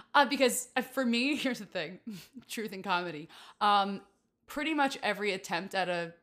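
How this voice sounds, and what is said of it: Usual voice. Nothing is said of it.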